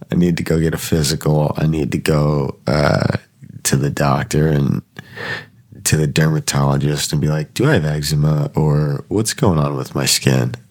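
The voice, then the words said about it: Sick, congested nasal voice. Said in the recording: “I'm sure you can hear in my voice that you know I'm still kind of sick... I can't get whatever demons are living in my nasal cavity out”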